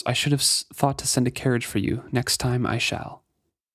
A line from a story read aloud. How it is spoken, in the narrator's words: he murmurs